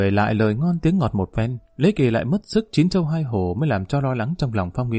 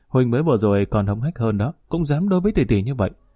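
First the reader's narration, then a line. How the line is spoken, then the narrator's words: Giggling. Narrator (Vietnamese): Phong Nguyên Đô cười khúc khích lập tức nói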